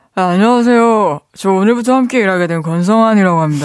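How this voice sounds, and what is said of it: Imitates another person's voice. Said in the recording (Korean): “성대모사 있는데 솔직히 좀 별로였어요. 다시 한번 선보이고 평가 들어봐요 ... 그, 이거는 권성환 씨가 ... 어떤 새로운 회사에 입사한”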